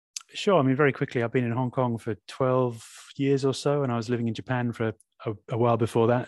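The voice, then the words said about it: British accent. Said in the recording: “a bit of a British accent there”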